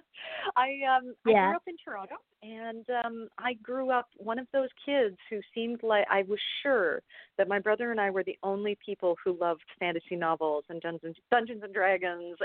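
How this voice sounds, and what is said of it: Canadian accent. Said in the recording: “I'm Canadian, as I'm sure my accent will show off fairly soon.”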